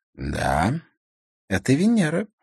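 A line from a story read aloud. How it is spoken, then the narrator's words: Purring. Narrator (Russian): мурлыкнула она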